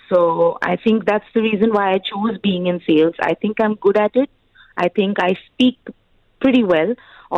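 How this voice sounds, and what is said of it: Indian regional English accent. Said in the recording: “Although I'm an Indian, sometimes people do think that I have a weird accent, probably a regional accent.”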